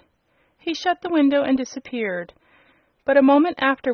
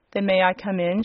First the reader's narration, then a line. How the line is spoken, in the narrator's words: she asked